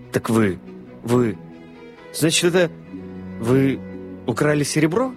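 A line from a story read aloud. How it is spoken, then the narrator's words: Stammering, bewildered question. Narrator (Russian): Запинаясь, спросил мистер Одли, с недоумением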